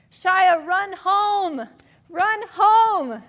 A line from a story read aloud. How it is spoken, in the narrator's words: everyone shouted